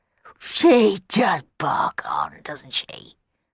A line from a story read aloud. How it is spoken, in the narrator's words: grumbled Black Bob under his breath